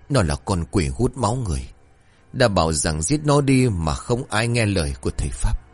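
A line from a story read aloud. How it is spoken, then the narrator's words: Hoarse, breathless. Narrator (Vietnamese): Ông ta nói bằng giọng khàn khàn như người sắp đứt hơi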